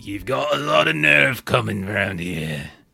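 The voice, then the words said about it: Generic grungy British accent. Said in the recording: “I'm not going to do a Scottish accent because I'm going to get it wrong ... I can just do generic grungy British accent.”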